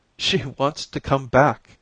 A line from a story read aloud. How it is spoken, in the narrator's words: he said in a broken voice